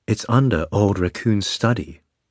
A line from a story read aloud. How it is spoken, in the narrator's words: she said calmly